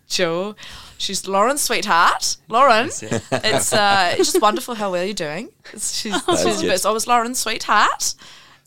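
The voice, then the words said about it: Put-on New Zealand accent. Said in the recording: “Do you do a Kiwi accent? ... I always do my friend Paddy's mum.”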